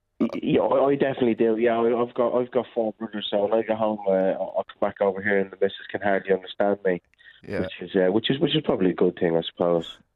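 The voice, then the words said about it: Dublin Irish accent, lilting. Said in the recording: “I love that Dublin accent, that lovely Irish lilt.”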